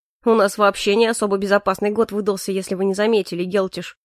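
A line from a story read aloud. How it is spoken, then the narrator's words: Snorting grunt. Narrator (Russian): хмыкнул Морис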